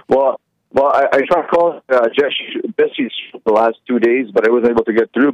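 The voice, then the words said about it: Canadian accent. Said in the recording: “your Canadian accent. You sure are Canadian.”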